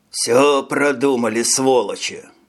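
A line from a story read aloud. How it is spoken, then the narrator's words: Grumbling. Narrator (Russian): проворчал Клаус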